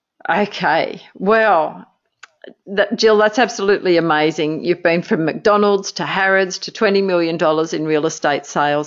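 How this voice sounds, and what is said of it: Speaks with a noticeable accent. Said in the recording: “just in case my accent gets in the way”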